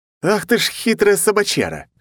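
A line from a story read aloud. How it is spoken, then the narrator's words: With a snort. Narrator (Russian): хмыкнул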